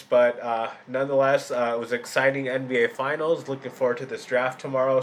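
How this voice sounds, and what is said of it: Sick, under-the-weather voice. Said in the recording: “A little under the weather. You can might tell by my voice”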